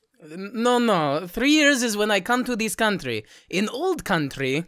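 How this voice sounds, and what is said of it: Put-on foreign accent. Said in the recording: “Give it up and drop the accent.”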